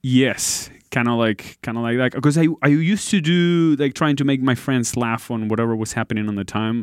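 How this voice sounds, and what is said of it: Slight Argentine Spanish accent. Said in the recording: “just a tad bit of an accent ... You're from? ... Argentina.”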